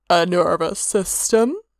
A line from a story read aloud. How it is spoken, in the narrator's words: Hermaeus suggested dryly